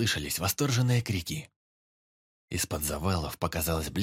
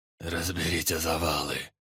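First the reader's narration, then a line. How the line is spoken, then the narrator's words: Hoarse command. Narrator (Russian): Сипло приказал он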